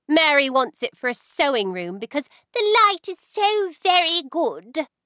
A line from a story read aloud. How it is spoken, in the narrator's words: she said, her voice rising to cruel mimicry of her sister-in-law's refined tones